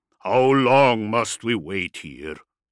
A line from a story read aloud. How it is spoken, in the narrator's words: Warfist growled